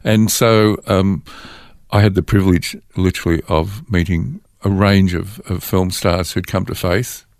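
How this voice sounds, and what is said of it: Australian accent. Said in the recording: “your Australian accent ... We need an Aussie.”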